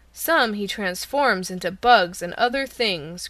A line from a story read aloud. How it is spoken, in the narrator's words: growled the bear's head